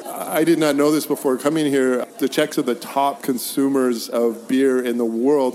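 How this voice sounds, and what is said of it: American English accent. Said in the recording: “I gave myself away as an American ... not that they couldn't tell from my accent”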